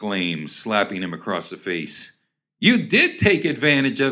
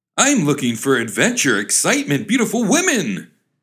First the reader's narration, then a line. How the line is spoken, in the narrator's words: cried the young man